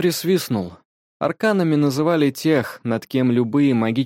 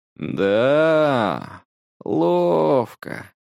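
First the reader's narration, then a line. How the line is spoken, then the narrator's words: Drawling. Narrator (Russian): протянул Илья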